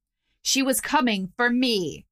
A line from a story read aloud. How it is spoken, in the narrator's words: snapped, voice cold as the grave